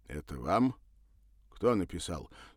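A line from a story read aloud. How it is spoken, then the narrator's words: Stern question. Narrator (Russian): строго поинтересовался он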